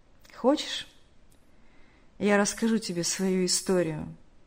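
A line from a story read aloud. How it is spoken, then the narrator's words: Said with a heavy sigh. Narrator (Russian): Тяжело вздохнув, сказал тот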